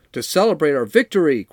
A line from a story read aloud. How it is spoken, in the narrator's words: cried Squealer